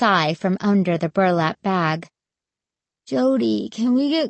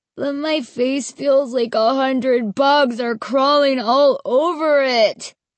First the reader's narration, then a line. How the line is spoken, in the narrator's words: he wailed